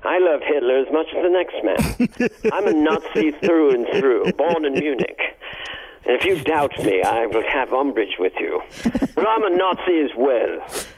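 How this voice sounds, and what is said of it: Put-on British accent. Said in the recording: “British actors sometimes take on playing Nazis, and they don't bother to change their accent.”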